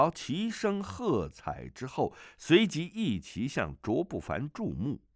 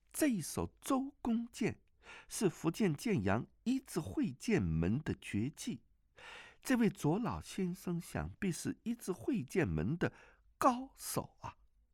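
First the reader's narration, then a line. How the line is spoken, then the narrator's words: Soft voice. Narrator (Chinese): 王语嫣轻声地说道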